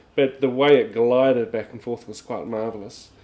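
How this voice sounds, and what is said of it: Australian accent. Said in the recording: “I'm speaking with an Aussie accent now.”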